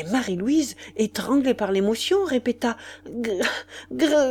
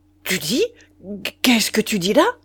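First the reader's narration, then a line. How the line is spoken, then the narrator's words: Shocked stammering. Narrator (French): Caravan se dressa avec un tel sursaut, il balbutia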